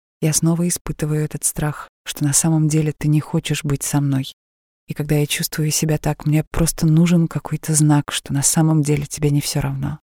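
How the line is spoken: Slow and quiet after pause. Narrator (Russian): Лора сделала паузу и потом медленно сказала тихим голосом

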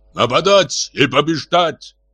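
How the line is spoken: Shouting. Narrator (Russian): кричал Автандил

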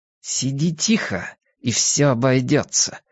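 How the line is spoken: Hissed through teeth. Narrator (Russian): сквозь зубы прошипела она

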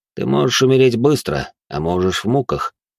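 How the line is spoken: Cold, through gritted teeth. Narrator (Russian): холодным голосом процедил наемный убийца

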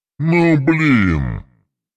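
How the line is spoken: Drawling from below. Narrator (Russian): Протянул Костомар откуда-то снизу

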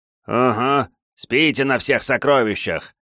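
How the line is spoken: Snorting. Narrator (Russian): хмыкнул Мэдзи

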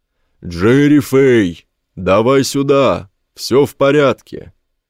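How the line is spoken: Roaring. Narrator (Russian): Чеслав Кубала проревел

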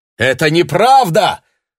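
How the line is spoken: Priest shouting. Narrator (Russian): закричал священник

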